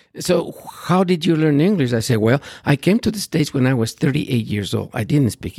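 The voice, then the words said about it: Speaks English with foreign accent. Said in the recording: “I have accent. I speak funny.”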